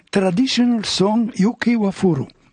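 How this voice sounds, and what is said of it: Put-on Japanese accent in English. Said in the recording (French): “avec l'accent japonais”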